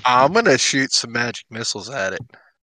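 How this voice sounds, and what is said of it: Put-on American country accent. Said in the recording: “talking like a country accent”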